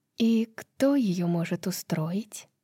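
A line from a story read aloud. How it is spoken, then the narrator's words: Whispered question. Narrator (Russian): шепотом спросила Брайс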